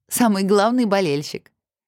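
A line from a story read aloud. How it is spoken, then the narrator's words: Laughing. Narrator (Russian): Засмеялась Влада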